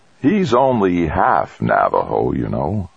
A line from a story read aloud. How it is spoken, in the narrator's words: said the president slowly